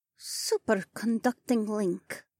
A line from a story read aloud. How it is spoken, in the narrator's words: Adhara muttered